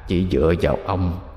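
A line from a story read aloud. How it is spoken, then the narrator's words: Hoarse rasping voice. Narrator (Vietnamese): Một âm thanh khàn khàn từ trong miệng thằng chổi phát ra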